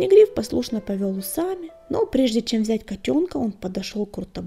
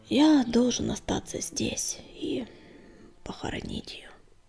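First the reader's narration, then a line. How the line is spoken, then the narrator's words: Whisper. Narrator (Russian): прошептал он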